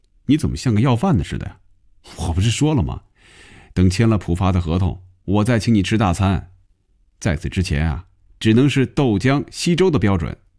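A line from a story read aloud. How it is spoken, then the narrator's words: Laughing. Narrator (Chinese): 红军笑了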